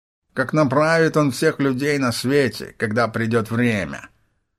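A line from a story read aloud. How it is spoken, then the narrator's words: Nasal voice. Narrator (Russian): Гнусавым голосом подхватил второй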